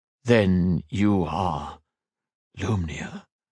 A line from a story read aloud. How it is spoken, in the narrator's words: he asked in a hushed tone